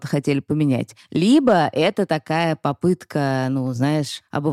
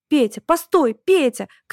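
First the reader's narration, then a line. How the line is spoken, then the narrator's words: Sudden shout. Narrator (Russian): крикнула вдруг сестра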